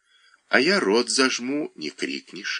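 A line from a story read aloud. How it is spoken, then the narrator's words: Plain. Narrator (Russian): ответил мужчина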